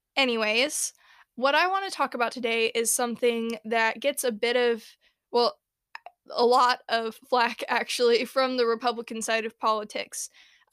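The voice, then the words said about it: Sick, congested voice from a cold. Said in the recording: “I am once again getting over a cold ... if my voice sounds like I'm dying”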